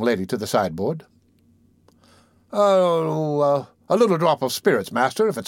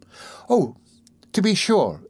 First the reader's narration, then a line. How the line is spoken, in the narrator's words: exclaimed Rose eagerly